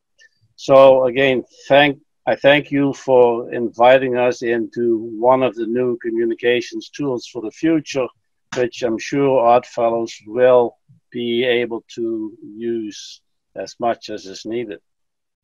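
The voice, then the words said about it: Dutch accent. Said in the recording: “You have an accent that I think that a few people probably noticed. I noticed it right away ... Originally, you're Dutch, yes?”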